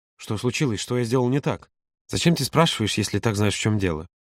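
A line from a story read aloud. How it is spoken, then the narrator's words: Barely audible mutter. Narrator (Russian): Едва слышно пробормотал Юра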